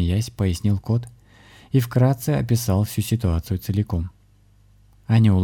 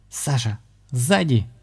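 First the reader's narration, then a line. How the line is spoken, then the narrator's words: Sudden cry. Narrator (Russian): вдруг вскрикнула Аня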